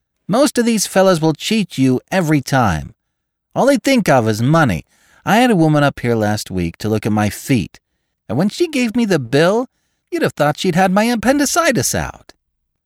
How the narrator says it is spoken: she told her sister in a high, mincing shout

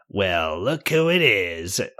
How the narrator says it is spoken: Nasty Kathy sneers

